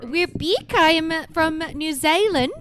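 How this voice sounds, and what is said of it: Poor put-on New Zealand accent. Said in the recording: “my shitty Kiwi accent”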